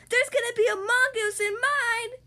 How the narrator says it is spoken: Nelson yelled

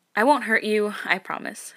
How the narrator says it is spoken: he sighs

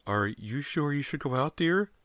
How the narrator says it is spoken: Callie's mother asked timidly

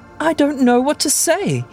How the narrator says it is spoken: he exclaimed, an unfamiliar note of emotion in his voice

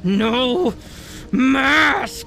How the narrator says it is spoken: It yelled in a terrifying voice

